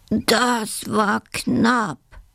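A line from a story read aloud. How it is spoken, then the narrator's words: Groaning badger. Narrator (German): stöhnt der freche Dachs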